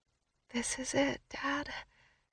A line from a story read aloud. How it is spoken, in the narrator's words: I say just above a whisper so my client doesn't think I'm nuts